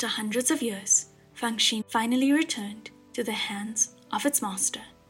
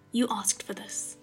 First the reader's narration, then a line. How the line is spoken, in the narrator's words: said softly